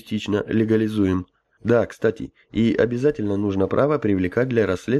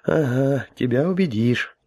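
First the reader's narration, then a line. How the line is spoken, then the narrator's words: Sighing. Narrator (Russian): вздохнул Гоша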